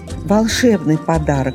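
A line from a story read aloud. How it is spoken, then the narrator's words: Young female exclaiming. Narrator (Russian): воскликнула молодая лисичка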